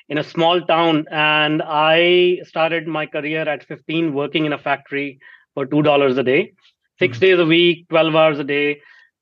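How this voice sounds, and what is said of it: Indian English accent. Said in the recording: “I grew up in India, if you cannot recognize my accent”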